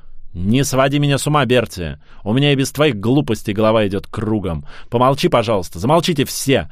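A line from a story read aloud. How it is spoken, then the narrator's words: Booming drill-sergeant bark. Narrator (Russian): гаркнула она голосом, которому позавидовал бы старший сержант морской пехоты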